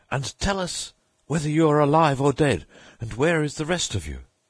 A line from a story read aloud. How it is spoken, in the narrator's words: he cried